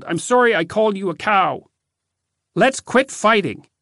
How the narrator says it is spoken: yelled

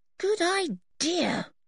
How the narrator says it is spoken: said Anne sleepily

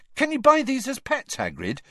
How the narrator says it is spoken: he asked excitedly

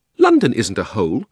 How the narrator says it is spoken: said Polly indignantly

